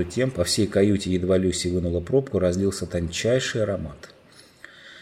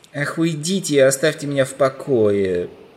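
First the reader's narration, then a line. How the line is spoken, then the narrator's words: Groaned. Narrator (Russian): простонал Юстас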